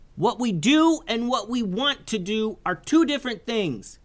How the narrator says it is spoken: yelled Isaiah

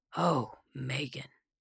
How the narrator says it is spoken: he said solemnly

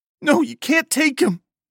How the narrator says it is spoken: She sobbed

